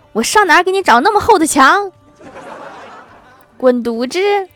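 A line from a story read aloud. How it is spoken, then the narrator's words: Angry shout. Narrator (Chinese): 郭大侠听了更生气了，也喊道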